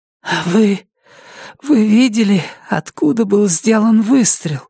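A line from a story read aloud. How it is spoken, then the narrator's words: Hoarse rasp. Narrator (Russian): хрипит Тавадут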